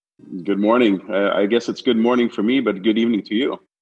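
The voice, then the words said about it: Canadian English accent. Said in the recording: “As you'll find out shortly from ... accent, he's very much a true Canadian.”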